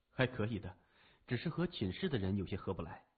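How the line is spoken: Murmuring. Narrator (Chinese): 他喃喃地说

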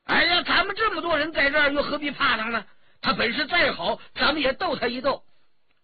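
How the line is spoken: Crying out. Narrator (Chinese): 张晋叫了起来

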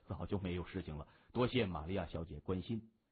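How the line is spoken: Soft voice. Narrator (Chinese): 他轻声摇头说

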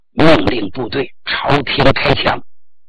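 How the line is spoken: Low voice. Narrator (Chinese): 他低声了对傅克振说

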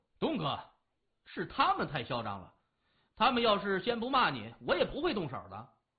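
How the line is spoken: Loud. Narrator (Chinese): 李爽大声说

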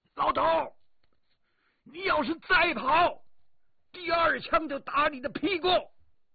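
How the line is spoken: Shouting. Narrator (Chinese): 我对他大喊

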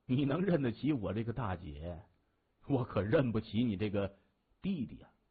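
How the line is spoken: Laughing. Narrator (Chinese): 胡灵霞笑着说

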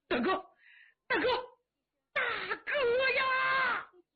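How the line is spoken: Loud wailing. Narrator (Chinese): 杨七郎放声大哭

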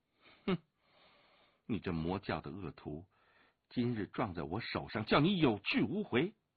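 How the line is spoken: Sneering. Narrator (Chinese): 武清微冷笑着说

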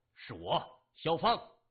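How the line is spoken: Anxious, angry. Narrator (Chinese): 萧芳的心中焦急，怒声说

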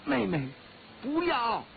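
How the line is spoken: Calling out. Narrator (Chinese): 黑衣人叫道

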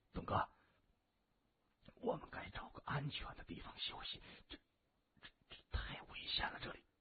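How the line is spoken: Whispering. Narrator (Chinese): 任长风在谢文东的耳边低声说

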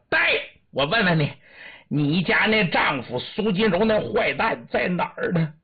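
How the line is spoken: Loud shouting. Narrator (Chinese): 老孟庆对他高声喊喝

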